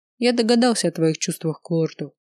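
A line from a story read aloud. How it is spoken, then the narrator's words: Calm. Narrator (Russian): спокойно кивнул принц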